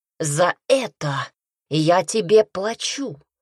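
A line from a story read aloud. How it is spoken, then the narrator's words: Growling. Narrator (Russian): прорычал Пайер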